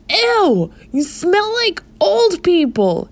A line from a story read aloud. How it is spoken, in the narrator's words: he screamed at the swarm